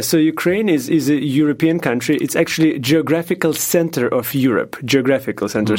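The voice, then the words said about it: Ukrainian-accented English. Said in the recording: “I was born in former USSR ... I lived in Ukraine for the majority of my life ... With an accent.”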